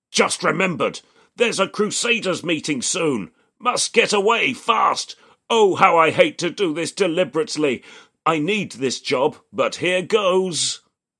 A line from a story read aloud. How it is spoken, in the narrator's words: the mirror-carrying man bellows inside his mind